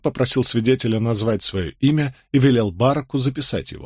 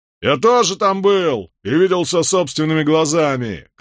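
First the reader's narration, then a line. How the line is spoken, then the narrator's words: Shout. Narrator (Russian): крикнул один из повстанцев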